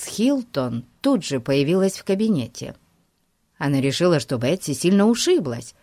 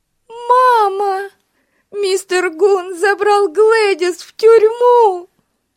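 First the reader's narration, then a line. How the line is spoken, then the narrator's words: Sobbing. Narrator (Russian): рыдала Бетси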